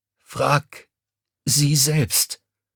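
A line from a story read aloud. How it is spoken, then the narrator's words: Croaked. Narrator (German): Mommsen gesprungenen Lippen krächzte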